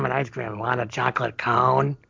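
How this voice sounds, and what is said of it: Gravelly imitation of another person's voice. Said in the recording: “It's not a terrible impression. ... I'm working on my Clint Howard ... he has this gravelly voice in this one”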